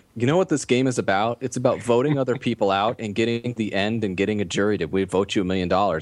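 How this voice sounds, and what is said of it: Valley Girl voice with downspeak. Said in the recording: “your Krista impersonation... You're basically doing a Valley Girl impression... It's a Valley Girl, but with a down speak instead of an up speak.”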